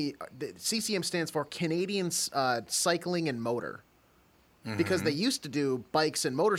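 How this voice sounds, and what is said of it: Usual voice. Nothing is said of it.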